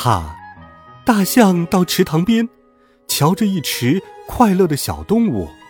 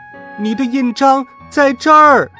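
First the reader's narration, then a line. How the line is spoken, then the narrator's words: Crowd shouting in unison. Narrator (Chinese): 大家齐声喊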